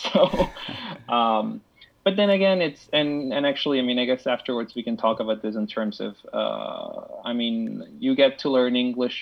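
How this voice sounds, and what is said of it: Foreign accent in English. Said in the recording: “I have this accent when I speak English, which people say you're from Spain, but you don't sound Spanish”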